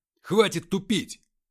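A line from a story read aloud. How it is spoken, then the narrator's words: Barking. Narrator (Russian): рявкнул скиф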